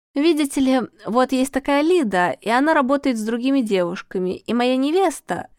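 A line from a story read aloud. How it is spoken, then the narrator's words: Stammering, faltering. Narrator (Russian): заикаясь и запинаясь, изложил Денис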